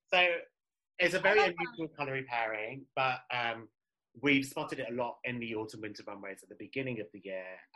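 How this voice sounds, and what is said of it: British accent. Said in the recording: “My British accent.”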